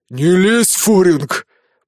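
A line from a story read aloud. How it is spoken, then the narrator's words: Growled, breathing heavily. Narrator (Russian): прорычал тяжело дышащий мужчина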